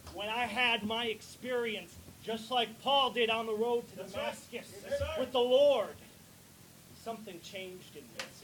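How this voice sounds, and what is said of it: Northern US accent, not southern. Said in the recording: “I don't have a southern dialect, by the way. This is very much a northern dialect.”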